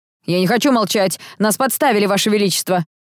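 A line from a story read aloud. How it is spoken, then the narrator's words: Nobleman shouting. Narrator (Russian): выкрикнул высокородный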